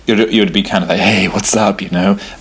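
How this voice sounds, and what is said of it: Exaggerated put-on sexy voice. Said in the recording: “that's not my sexy voice. I don't know where that came from ... if you're in a badly written erotica, that would be your sexy voice ... everything you'd say would be in this kind of voice”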